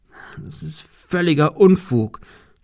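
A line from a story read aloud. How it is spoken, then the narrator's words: Stammering. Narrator (German): stammelte er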